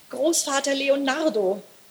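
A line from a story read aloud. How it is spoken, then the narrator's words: Called out. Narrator (German): rief Elli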